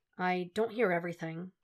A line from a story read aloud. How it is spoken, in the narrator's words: he starts hesitantly